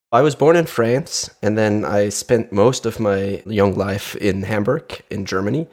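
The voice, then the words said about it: Hard-to-place European accent. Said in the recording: “your accent's very hard to pin down”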